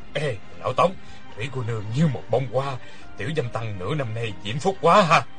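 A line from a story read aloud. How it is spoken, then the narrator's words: Low voice, laughing. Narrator (Vietnamese): Người kia hạ giọng cười nói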